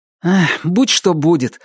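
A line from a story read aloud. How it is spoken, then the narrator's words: Sighing teenager. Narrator (Russian): вздохнул подросток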